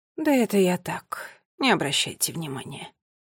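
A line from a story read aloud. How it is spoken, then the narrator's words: Woman muttering. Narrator (Russian): пробормотала целительница книг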